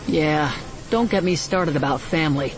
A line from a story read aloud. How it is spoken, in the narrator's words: Han said with a knowing sigh